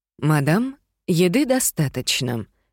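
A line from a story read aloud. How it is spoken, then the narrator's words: Pointedly calm tone. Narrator (Russian): подчеркнуто спокойным тоном сказала миссис Ангел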